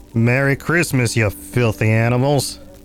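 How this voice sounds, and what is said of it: Imitates another person's voice. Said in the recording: “That's the best impression I could do.”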